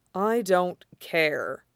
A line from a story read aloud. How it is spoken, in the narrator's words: he said quietly